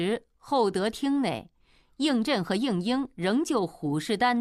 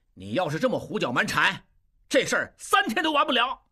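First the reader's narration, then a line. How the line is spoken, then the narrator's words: Loud, angry. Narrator (Chinese): 应震高声怒道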